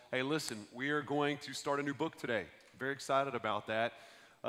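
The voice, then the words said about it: Hoarse, rough voice from a cold. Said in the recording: “I apologize for my voice. I feel better than I sound. I know I sound like an ashtray, ... coming out of this cold”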